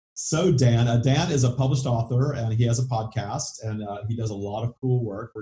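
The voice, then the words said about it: Southern US accent. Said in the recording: “With my southern accent”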